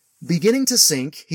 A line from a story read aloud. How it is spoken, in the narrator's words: he cried, saying